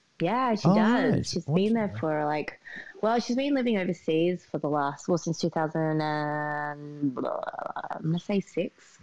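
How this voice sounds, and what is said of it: Australian accent. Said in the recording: “lack of accent and how I sound very Australian, probably more Australian than some of the Australians I know”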